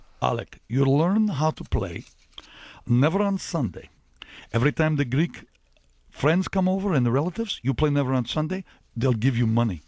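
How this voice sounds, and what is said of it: Imitated Greek accent. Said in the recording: “I'll try the accent.”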